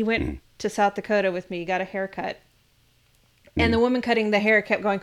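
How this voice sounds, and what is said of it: Usual voice. Nothing is said of it.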